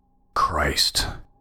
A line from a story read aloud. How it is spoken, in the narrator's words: I muttered to myself